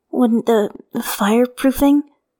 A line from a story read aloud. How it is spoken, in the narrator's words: Wei Yong starts hesitantly